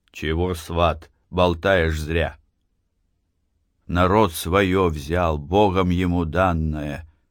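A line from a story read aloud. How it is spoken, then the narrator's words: Calm, self-assured old man. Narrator (Russian): Спокойно, сознанием своей правоты, проговорил дед Фишка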